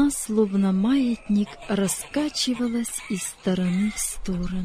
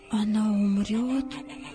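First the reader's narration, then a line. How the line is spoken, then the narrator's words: Whispered question. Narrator (Russian): шепотом спросил Давид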